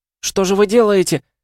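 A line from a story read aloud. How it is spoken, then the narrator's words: Exclaiming. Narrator (Russian): воскликнула она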